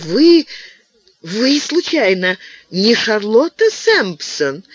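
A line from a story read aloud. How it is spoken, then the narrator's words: Delighted woman's question. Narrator (Russian): какая-то женщина восторженным голосом спросила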